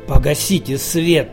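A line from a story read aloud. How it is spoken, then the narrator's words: Hoarse, strange voice. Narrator (Russian): просипел очужевшим, незнакомым голосом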